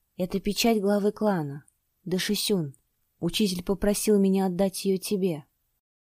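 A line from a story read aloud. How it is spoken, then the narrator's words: Barely audible. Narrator (Russian): сказав еле слышно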